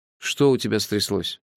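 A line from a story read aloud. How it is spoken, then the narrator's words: Plain question. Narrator (Russian): спросил я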